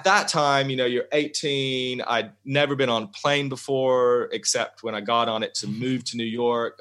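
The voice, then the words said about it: Southern US accent. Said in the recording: “I was really Southern ... it's pretty difficult to get rid of”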